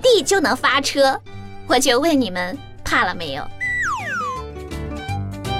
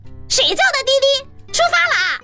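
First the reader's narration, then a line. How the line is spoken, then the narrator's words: Young man roaring. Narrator (Chinese): 小哥 大吼了一声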